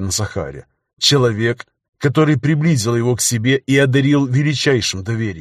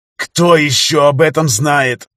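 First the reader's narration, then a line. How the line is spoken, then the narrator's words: Hissing. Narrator (Russian): прошипел он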